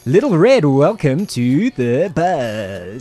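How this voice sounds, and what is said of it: Game show host voice. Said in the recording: “that stupid game show voice”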